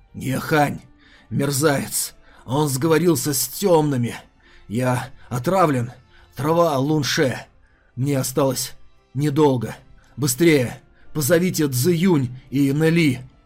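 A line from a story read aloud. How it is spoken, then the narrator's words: Dying wheeze. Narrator (Russian): прохрипел Едзун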